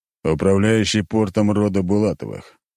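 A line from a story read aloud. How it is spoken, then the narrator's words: Deep bass voice. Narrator (Russian): пробасил Леонид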